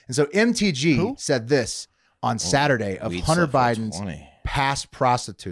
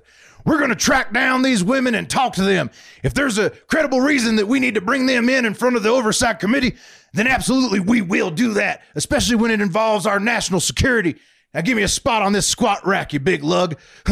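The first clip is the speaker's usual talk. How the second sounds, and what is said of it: Impression of Marjorie Taylor Greene. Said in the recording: “that's such a good MGT impression. It was like she was here in the room with us.”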